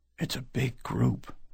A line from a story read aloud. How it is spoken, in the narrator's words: Maddie whispered